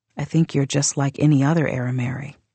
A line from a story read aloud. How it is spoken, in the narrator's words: I said softly